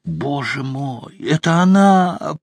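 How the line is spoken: Groan. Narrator (Russian): простонал паук

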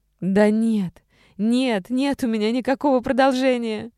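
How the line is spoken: Sudden shout. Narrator (Russian): Внезапно закричала Саша

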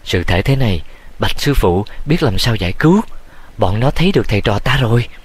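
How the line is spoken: Frightened soft cry. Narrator (Vietnamese): Triệu Võ lo sợ khẽ kêu

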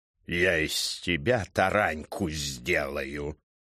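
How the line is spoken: Furious hissing scolding, bass. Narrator (Russian): Срываясь на яростное шипение, распекал знакомый бас

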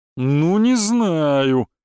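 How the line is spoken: Feigned drawl. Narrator (Russian): наигранно протянул

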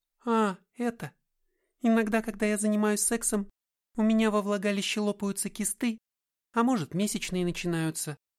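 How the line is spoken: Disconcertingly calm female voice. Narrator (Russian): сказала она обескураживающе спокойно

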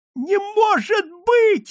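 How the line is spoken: Squeaky. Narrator (Russian): запищал Фанатюк

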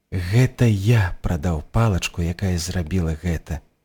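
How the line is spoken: Quiet. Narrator (Belarusian): ціха сказаў ён

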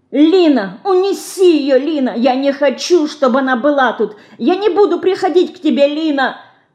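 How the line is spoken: Little mouse crying out. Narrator (Russian): кричала мышка

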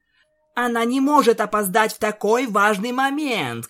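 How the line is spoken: Shouting. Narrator (Russian): крикнула Твайлайт

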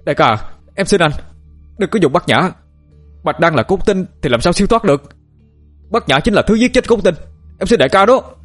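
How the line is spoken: Shouting. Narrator (Vietnamese): Anh Thông hét lên

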